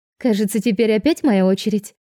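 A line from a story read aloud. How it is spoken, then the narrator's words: Cheerful chirping. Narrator (Russian): весело щебечет Симона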